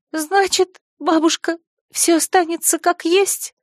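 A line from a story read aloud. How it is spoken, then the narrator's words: Deliberate sobbing question. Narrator (Russian): старательно всхлипывая, спросила я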